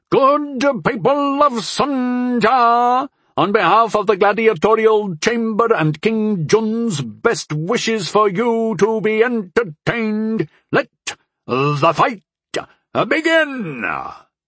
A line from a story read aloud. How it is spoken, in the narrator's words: the orator bellowed